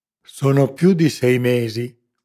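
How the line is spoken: Cavernous voice. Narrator (Italian): cominciò lo spagnolo con la sua voce cavernosa

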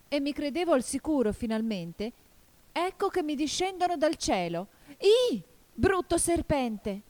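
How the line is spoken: Pigeon's desperate cry. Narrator (Italian): continuò il colombo con un grido disperato

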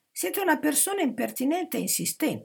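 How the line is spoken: Exasperated girl exclaiming. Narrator (Italian): esclamò la fanciulla esasperata

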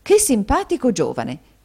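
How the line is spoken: Exclamation. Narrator (Italian): esclamò la signora Kenwigs

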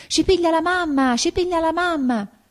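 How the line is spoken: Children screaming. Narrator (Italian): I bambini si messano attraverso e urlavano

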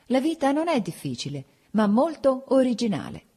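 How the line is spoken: Laughing, holding back emotion. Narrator (Italian): Per sottrarmi alla commozione che minacciava anche me, dissi ridendo

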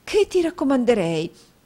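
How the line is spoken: Exclaiming. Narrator (Italian): esclamò la signora Nickleby

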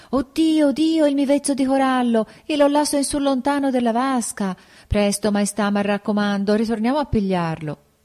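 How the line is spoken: Sudden alarmed exclamation. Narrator (Italian): tutto a un tratto la sposa esclama

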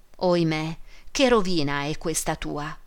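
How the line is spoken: Tearful exclamation. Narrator (Italian): esclamò Esther con gli occhi pieni di lacrime

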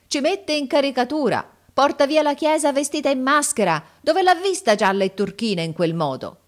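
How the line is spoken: Crowd shouting. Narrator (Italian): Gridavano

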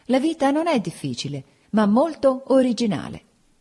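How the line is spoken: Laughing, hiding emotion. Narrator (Italian): Per sottrarmi alla commozione che minacciava anche me, dissi ridendo

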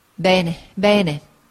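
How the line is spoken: Plain. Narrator (Italian): disse mia zia

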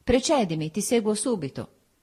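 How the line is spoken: Firm, solid voice. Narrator (Italian): Mi diceva con la sua voce soda

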